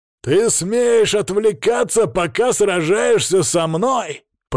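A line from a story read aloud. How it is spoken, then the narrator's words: Growled. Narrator (Russian): прорычал Анелит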